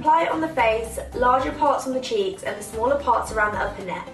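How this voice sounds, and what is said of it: Very thick British accent. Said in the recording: “I can't understand the damn word she's saying ... That's like the thickest British accent I've ever heard.”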